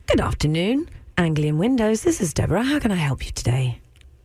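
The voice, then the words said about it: Polite telephone receptionist voice. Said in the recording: “You want to hear my phone voice? ... So this is my normal voice, right? ... And this is how I answer the phone.”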